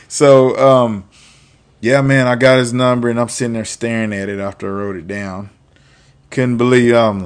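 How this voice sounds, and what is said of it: Noticeable accent. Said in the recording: “She probably didn't hear anything I said with my accent, you know. And I was way back, you know, worse than what I am now.”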